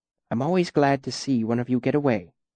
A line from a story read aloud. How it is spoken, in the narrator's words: he said softly